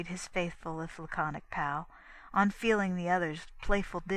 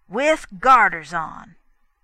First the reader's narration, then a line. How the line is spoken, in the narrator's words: he sneered